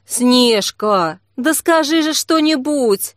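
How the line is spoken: Pleading. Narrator (Russian): взмолилась Ксения

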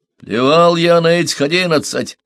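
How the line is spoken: Barking. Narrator (Russian): рявкнул Хант

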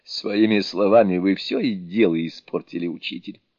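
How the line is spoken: Grumbling. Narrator (Russian): начал он ворчать

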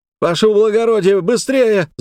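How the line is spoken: Yells from behind. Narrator (Russian): завопили позади

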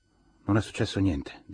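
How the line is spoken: Tired voice. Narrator (Italian): disse con voce stanca

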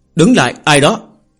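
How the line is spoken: Loud challenge. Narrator (Vietnamese): lớn tiếng dò hỏi

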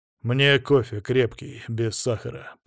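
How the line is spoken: Calm. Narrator (Russian): проговариваю спокойно

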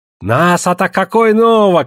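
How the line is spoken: Shouting. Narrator (Russian): кричал Песотька

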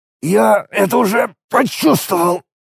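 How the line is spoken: Creaky rasp. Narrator (Russian): проскрипел Алекс

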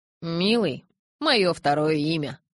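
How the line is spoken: Familiar husky voice. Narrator (Russian): отозвалась темнота знакомым хрипловатым голосом

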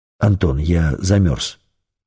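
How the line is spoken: Plain. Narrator (Russian): сказал шеф

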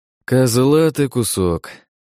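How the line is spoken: Sighing. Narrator (Russian): вздохнув, произнес

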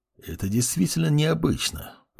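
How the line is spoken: Muttering. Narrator (Russian): пробормотал лич

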